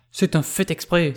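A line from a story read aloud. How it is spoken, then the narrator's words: Cry with stamping foot. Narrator (French): s'écria en frappant du pied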